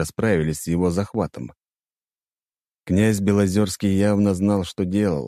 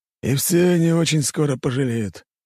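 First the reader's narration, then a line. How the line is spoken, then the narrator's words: Grim snort. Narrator (Russian): Долгоруков мрачно хмыкнул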